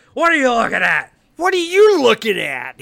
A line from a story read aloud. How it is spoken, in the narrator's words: he yells at her